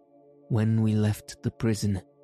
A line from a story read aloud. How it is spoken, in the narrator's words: answered